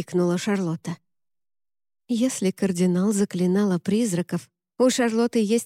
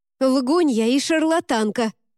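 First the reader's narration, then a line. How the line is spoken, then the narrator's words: Shout. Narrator (Russian): крикнула Шарлотта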